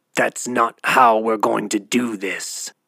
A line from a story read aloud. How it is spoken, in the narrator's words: hissed Vog